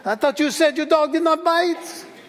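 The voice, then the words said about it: Bad French accent, Inspector Clouseau. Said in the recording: “He has a French accent. I'm going to butcher it badly”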